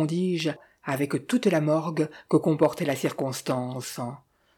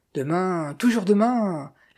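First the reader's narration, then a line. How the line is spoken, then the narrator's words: Sneering laugh. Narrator (French): ricanai-je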